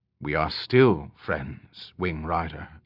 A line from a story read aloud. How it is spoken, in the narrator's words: Alanon said quietly